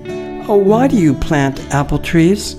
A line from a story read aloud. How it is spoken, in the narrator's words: Beth was the first one to timidly ask